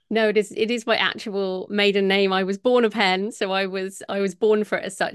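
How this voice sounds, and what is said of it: British accent. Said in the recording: “I love your accent. I always love a British accent.”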